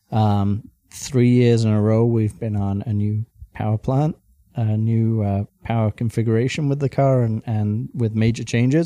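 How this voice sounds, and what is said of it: Alabama Southern accent. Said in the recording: “you're from Alabama originally. I can tell from your accent.”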